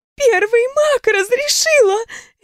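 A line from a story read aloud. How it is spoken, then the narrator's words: Babbling. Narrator (Russian): лепетала она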